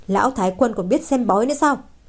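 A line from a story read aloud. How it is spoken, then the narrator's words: Angry. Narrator (Vietnamese): Lâu Thất lập tức tức giận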